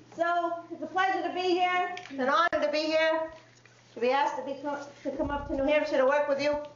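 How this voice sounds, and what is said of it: Worcester, Massachusetts accent. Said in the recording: “I'm a Worcester girl. I have a Worcester accent.”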